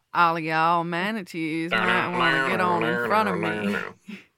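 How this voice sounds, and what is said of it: Put-on Southern accent, catcalling. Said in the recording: “it's a southern accent. So it would be like one of those southern boy catcalls.”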